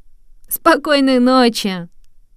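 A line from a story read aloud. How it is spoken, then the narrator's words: Laughing mice. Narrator (Russian): смеялись мыши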